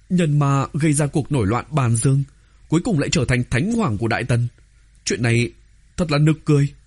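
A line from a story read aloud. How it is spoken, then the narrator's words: Stunned stammer. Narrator (Vietnamese): Oánh Oánh đã sớm trốn vào linh giới của Tô Vân, nghe vậy cũng không khỏi ngây ra như phỗng, lắp bắp nói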